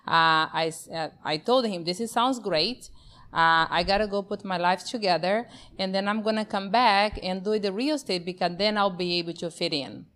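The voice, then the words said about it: Brazilian accent. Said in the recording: “born and raised in Brazil, that's where my accent comes from”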